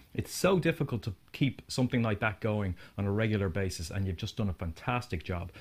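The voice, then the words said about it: Speaks with a pleasant accent. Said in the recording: “Oh, I love his accent. ... That's so good.”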